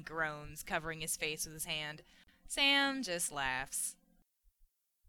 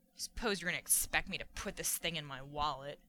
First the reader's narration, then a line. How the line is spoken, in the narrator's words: grumbles